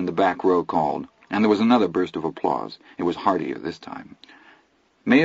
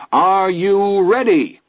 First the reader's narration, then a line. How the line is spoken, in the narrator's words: His Honor's voice rolled triumphantly through the Great Day PA and off down Main Street